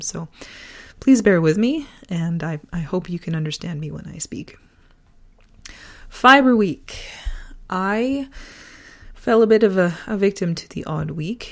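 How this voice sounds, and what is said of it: Hoarse, fading voice. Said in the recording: “As you might be able to hear, I'm losing my voice a little bit ... a long-standing sore throat, which then morphs into losing your voice, and I am in the last phases of losing my voice”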